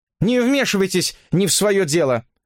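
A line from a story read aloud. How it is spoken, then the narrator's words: Irritated, curt. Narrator (Russian): раздраженно отрезала девица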